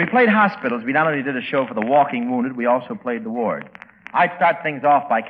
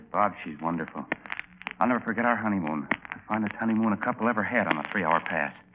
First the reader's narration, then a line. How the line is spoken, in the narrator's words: He looked at her picture lovingly and whispered